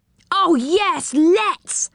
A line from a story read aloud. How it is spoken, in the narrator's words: cried Rick